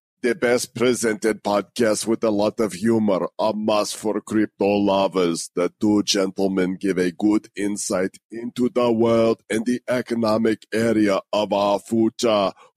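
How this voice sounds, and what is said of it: Poor put-on Austrian accent. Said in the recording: “That was the worst Austrian accent ever. But it was kind of Arnoldish”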